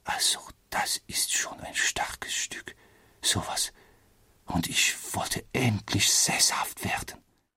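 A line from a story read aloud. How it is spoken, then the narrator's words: Quiet mutter to himself. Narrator (German): sagte er leise vor sich hin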